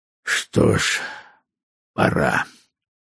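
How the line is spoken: Muffled, hollow. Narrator (Russian): он глухо сказал

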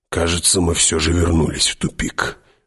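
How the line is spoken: Sullen mutter. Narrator (Russian): угрюмо буркнул Хават

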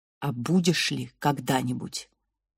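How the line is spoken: Mother's whisper. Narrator (Russian): шепот матери

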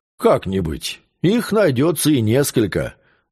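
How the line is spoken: Plain. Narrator (Russian): сказал Деминьяк

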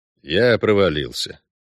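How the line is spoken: Gloomy statement. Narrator (Russian): сообщил Геральт мрачно

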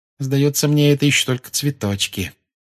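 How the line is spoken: Gloomy remark. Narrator (Russian): мрачно заметила Гермиона

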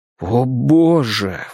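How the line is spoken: Exclamation. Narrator (Russian): воскликнул я

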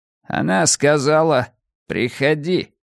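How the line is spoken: Through gritted teeth. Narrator (Russian): процедил папаша

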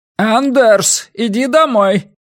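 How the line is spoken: Distant old man's shout. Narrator (Russian): крикнул где-то за спиной у Паризы старик

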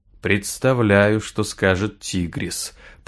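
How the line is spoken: Mutter. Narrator (Russian): пробормотал Бай

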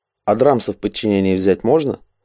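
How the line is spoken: Mocking question. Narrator (Russian): Насмешливо поинтересовался Шагади

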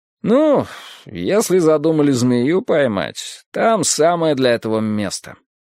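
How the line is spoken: Lazy drawl. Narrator (Russian): лениво протянул Пембертон

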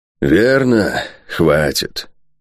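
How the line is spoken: Sad, fat man. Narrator (Russian): печально кивнул толстяк

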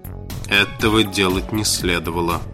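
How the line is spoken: Gloomy. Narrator (Russian): мрачно произнес Инок

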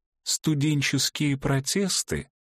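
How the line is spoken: Duke, pained voice. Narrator (Russian): Голосом, полным зубной боли, снова начал герцог

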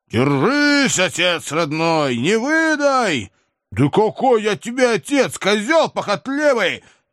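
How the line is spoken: Intimidating bark. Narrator (Russian): Для острастки рявкнул я

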